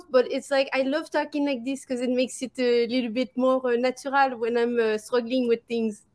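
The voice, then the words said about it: Put-on Parisian French accent in English. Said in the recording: “I fully embrace the French accent and I speak with a Parisian, like, you know, English accent ... Even this is not my regular accent ... it sounds so good”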